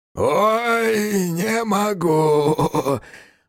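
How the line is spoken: Hoarse, laughing. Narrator (Russian): раздался хриплый голос и долгий смех

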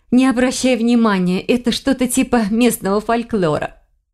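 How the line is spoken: Laughing. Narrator (Russian): смеясь сказала она

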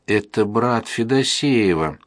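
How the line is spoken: Moaning. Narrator (Russian): простонал Кашкаров

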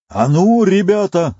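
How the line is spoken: Yelling. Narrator (Russian): заорал

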